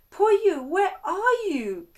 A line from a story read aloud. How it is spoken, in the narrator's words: Kanta yelled